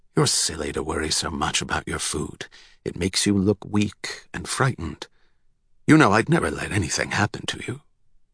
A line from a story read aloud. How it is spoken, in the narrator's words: he whispered to Salvador